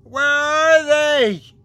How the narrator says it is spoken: it screamed

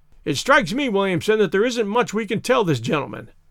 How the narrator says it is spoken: cried Carruthers, with a bitter laugh

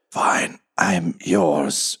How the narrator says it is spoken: him just rasp

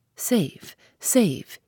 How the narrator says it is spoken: gasped

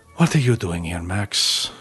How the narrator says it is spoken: whispered

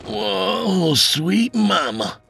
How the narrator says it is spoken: he moaned

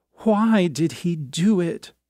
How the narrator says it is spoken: Her mother's question into the telephone was an impatient scream

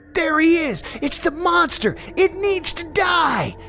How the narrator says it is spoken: they all screamed in tandem

